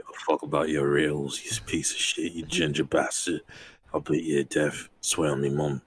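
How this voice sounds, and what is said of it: Fake British accent. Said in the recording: “I think that's a fake accent that you're doing ... a British accent”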